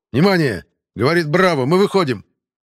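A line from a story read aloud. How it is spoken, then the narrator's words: Shout. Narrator (Russian): Кричал я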